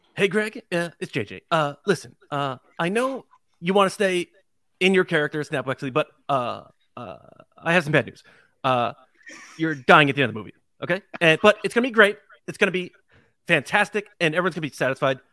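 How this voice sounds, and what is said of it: Imitates another person's voice. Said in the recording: “he can do a great impression of you”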